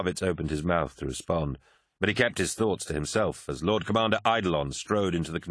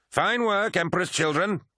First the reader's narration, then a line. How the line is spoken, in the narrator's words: shouted Eidolon